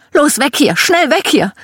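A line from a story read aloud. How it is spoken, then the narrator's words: Screaming. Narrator (German): Meine Mom schrie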